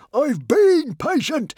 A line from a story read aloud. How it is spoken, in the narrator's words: howled Norbert